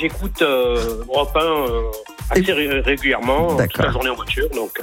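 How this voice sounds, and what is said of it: Regional southern French accent. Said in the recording (French): “Maintenant j'entends bien votre accent. Vous êtes, donc grâce à votre accent”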